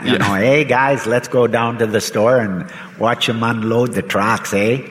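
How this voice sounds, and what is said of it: Exaggerated Midwestern Fargo-style accent. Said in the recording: “your accent ... from the Midwest, from Wisconsin ... Where we talk like Fargo.”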